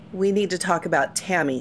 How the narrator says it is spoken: she said coldly

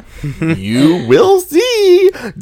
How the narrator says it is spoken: Draco giggled mysteriously

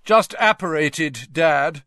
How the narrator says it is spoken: said Percy loudly

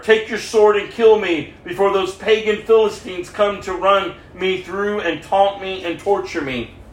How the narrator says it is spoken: Saul groaned to his armor bearer

